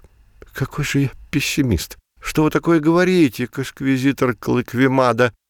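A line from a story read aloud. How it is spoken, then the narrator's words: Babbling. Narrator (Russian): залепетал обвиняемый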